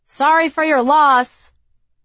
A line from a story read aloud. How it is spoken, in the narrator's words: a colleague on the way down shouted out